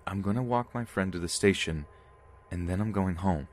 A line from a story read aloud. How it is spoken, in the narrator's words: I said firmly